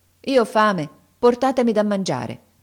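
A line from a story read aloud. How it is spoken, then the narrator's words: Firm reply. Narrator (Italian): Aladino rispose con tono fermo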